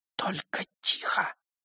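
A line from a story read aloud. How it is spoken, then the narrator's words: Whisper into ear. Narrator (Russian): прошептала она ему в самое ухо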